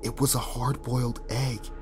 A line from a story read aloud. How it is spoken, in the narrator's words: Josh whispers